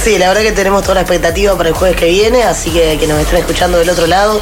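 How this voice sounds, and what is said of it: Polished radio announcer voice. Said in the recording (Spanish): “Esa voz de locutora que tiene de”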